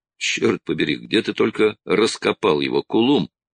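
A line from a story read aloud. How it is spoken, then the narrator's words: Plain. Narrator (Russian): спросил Строн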